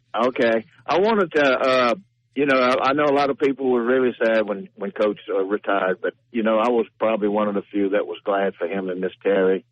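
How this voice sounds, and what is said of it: Cajun accent. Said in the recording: “my Cajun accent”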